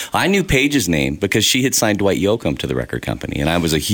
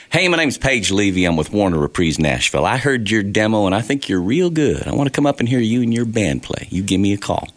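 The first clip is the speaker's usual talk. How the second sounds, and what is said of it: Put-on Southern accent. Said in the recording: “this Southern accent”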